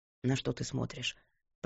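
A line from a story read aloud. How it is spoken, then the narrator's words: Muttering in ear. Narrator (Russian): пробормотал он ей на ухо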